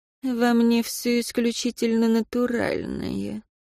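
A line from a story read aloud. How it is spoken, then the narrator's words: Flustered, through gritted teeth. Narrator (Russian): Амалия вспыхнула ... процедила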